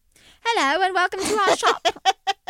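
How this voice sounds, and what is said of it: Put-on British accent. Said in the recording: “the shop owner with a British accent”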